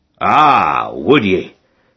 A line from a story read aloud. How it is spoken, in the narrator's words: growled Montmorency